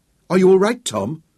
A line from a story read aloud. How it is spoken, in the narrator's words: Sarah asked anxiously